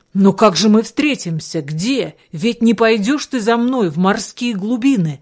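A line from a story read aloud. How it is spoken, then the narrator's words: Young man's anxious exclamation. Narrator (Russian): воскликнул юный рыбак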